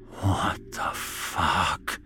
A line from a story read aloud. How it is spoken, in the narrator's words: Ian whispered to himself, gasping